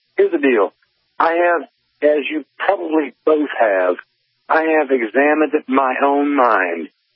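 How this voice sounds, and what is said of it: Slight Southern US accent. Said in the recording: “got me a little southern accent because I'm from Georgia”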